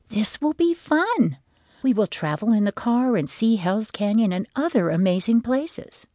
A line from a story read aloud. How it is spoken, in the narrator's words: had said in her sweetest voice